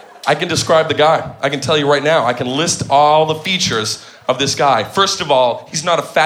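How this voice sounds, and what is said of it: Usual voice. Nothing is said of it.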